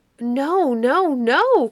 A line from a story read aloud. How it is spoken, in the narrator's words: cried Blue Eye, Periwinkle, Plantain, and half a dozen others